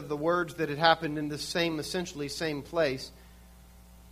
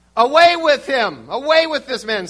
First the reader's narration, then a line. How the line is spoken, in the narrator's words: the whole crowd shouted to Pilate